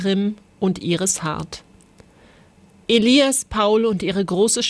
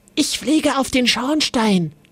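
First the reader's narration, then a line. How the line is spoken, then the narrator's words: Whispered. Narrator (German): wisperte Paul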